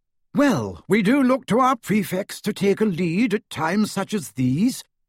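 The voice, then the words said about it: Pompous imitated voice. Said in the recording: “in a good imitation of Percy's most pompous manner”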